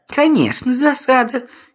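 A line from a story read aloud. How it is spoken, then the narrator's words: Giggling. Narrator (Russian): хихикнули они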